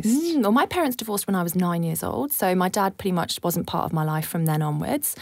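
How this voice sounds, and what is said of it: British accent. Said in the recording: “with that accent, have grown up in the UK”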